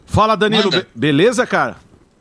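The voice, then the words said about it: Radio announcer voice. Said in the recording (Portuguese): “Tá com voz de, radialista”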